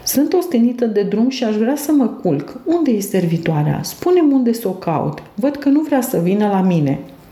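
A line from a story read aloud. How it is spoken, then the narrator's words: Exclaiming. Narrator (Romanian): exclamai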